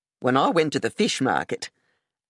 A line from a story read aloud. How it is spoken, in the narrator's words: Aunt Kathleen said